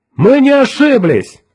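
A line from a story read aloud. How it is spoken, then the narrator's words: Shouting. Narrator (Russian): крикнул Кертис Ньютон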